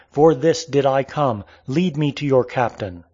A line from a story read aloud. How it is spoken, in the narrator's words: He, however, neither fled nor made entreaty, but cried out